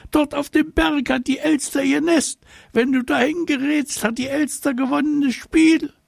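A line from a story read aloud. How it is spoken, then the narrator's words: Agitated wailing. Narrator (German): geriet er ganz aus dem Häuschen, er rannte aufgeregt hin und her und jammerte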